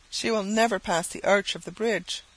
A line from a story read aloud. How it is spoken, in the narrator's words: said a man sullenly